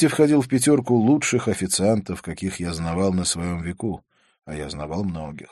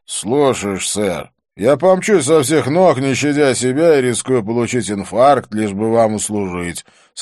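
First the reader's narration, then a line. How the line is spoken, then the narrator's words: Sarcastic grumble. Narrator (Russian): саркастически пробурчал Свити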